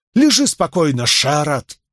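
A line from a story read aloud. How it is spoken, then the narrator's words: Sharp scolding. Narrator (Russian): прикрикнула на него Чиат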